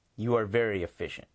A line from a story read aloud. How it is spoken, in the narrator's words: he said